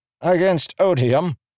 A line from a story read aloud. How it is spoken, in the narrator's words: Kallek laughed